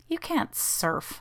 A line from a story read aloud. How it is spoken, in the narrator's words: scoffed Jeannie